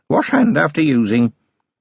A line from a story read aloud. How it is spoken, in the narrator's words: she said, in an offhand voice